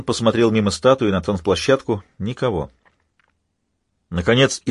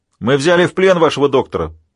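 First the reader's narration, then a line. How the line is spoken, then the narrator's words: Shout. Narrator (Russian): прокричала тень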